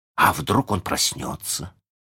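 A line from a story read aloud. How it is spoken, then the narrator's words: Suddenly hoarse question. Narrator (Russian): спросил Джон внезапно севшим голосом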